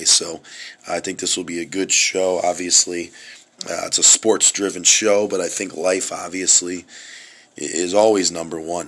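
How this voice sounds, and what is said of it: Raspy voice. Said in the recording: “a little more of a raspy voice, I've definitely had some rough health stuff”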